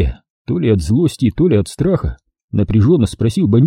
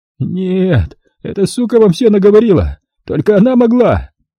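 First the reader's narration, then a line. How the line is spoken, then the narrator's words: Howling in helpless rage. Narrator (Russian): В бессильной злобе взвыл Быковский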